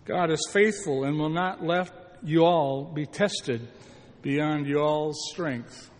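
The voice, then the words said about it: Attempted Southern US accent. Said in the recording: “learned how to speak Southern a little bit ... I never got the accent right”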